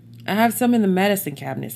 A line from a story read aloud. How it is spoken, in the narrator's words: said Scott